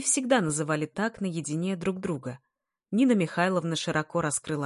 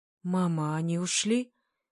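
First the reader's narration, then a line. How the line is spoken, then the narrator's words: Timid young man. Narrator (Russian): робко прозвучал голос юноши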